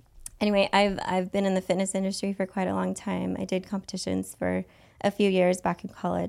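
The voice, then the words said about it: Hoarse, raspy voice. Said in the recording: “my voice is shot this week ... It's a nice sexy rasp.”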